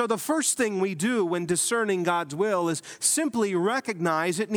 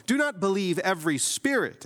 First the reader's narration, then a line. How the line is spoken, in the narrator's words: says